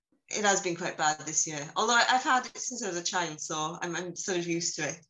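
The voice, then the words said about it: Husky, congested voice. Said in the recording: “excuse my voice. I'm full of hay fever ... it does make me sound a little bit husky ... It's a sexy voice.”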